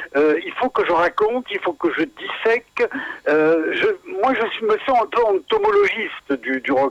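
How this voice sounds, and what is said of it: Mediterranean southern French accent. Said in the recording (French): “Je suis méditerranéen dans l'âme, mais mon accent le trahit encore.”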